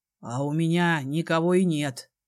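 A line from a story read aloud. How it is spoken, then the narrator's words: Muffled father's confession. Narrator (Russian): глухо признался отец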